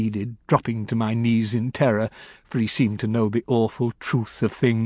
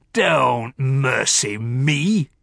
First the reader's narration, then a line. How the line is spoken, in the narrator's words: he thundered on